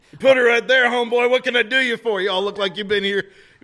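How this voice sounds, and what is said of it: Football coach character voice. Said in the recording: “Football coach.”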